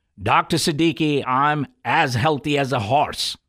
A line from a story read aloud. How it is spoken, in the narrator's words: One young female patient, insulin-dependent diabetic, walked into my clinic and said loudly